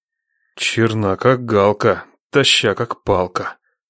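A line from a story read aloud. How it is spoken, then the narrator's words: Low voice. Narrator (Russian): вполголоса проговорил Нечай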